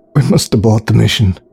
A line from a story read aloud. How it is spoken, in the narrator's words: croaked Alex in a panicked voice